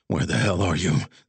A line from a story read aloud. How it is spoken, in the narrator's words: Zig muttered